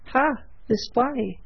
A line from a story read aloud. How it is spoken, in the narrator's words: he exclaimed